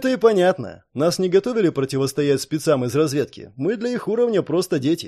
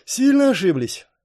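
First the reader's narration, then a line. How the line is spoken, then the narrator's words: Heavy sigh. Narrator (Russian): тяжело вздохнул Партон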